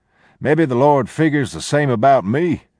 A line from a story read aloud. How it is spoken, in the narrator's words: he chuckled